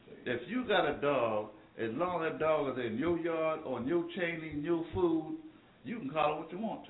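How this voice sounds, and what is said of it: Slight Southern American accent. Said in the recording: “I got a little southern accent too”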